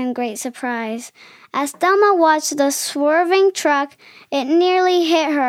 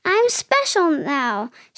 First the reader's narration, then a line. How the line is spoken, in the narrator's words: she cried out loud